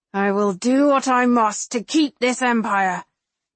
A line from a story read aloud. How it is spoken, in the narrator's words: Marcus growls